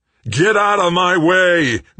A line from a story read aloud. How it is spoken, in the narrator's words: Greg roared